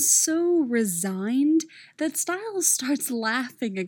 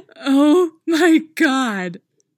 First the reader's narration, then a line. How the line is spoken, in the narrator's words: Stiles says, busting out with laughter